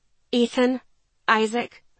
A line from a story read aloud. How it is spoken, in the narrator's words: I said, my voice tense